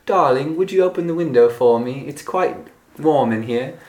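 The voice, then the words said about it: Put-on posh British accent. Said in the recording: “Why did you have to use a British accent to say that? ... really polite English or really formal English, I think of it with a British accent”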